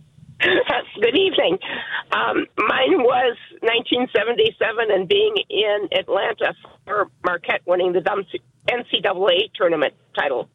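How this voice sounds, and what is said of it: Slightly hoarse voice. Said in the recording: “your voice still sounds a little hoarse ... I've been having a cold recently”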